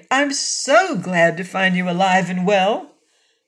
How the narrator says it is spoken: she exclaimed

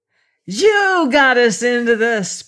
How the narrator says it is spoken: screamed, murderous fury in his glare

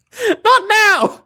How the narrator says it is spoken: They both shouted

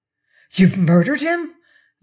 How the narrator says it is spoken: gasped

